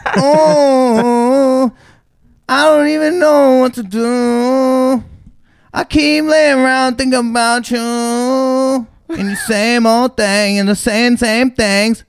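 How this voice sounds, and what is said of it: Imitates another person's singing voice. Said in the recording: “That's Kid Leroy. ... That's a really good impression.”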